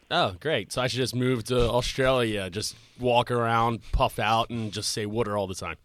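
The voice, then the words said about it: Philadelphia accent. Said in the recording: “My scumbag Philadelphia accent”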